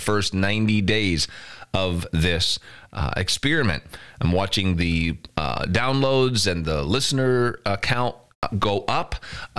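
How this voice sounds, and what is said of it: Congested, stuffy nasal voice. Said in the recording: “trouble early in the morning during the winter with my sinuses ... Maybe you can hear it in my voice, but I know that I'm a little plugged up”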